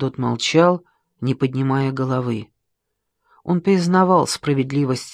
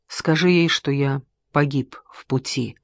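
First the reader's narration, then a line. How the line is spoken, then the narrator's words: Quiet. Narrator (Russian): тихо сказал Геродот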